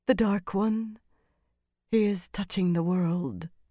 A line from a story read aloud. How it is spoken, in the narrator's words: said softly